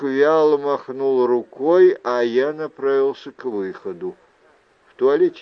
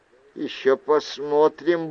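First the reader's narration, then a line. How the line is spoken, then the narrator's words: Grumbled. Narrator (Russian): буркнул я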